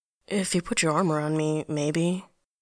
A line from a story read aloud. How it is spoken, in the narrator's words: mumble